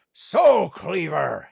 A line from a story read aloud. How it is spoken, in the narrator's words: he roared